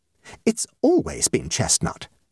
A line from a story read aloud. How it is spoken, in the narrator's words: exclaimed Mrs